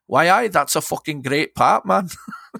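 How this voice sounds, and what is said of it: Put-on Newcastle Geordie accent. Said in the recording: “that's my Newcastle accent”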